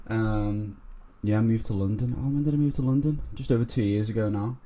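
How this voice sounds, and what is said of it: Liverpool accent. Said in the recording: “from Liverpool, as you can tell by my accent.”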